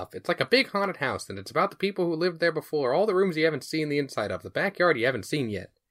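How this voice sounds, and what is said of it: Nerdy dork character voice. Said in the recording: “doing that voice? ... you're doing your dork voice.”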